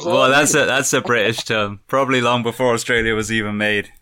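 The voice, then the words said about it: English accent. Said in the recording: “are you from Australia? ... I'm from England. ... You got that accent, mate.”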